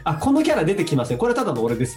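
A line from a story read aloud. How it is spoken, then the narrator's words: Plain. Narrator (Japanese): って言って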